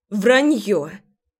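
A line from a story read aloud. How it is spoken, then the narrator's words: Angry cry. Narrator (Russian): Зло вскрикиваю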